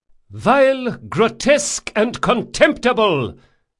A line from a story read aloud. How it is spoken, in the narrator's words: shouted Drakasha